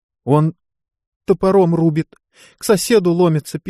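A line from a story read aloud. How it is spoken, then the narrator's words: Woman's squeak. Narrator (Russian): пискнула женщина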